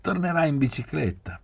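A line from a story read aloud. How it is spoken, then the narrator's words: Laughing. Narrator (Italian): Pieretto se la rise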